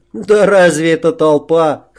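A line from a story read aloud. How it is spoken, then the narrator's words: Snorting scoff. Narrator (Russian): хмыкнул Жора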